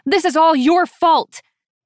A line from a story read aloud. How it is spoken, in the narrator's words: She screeches at me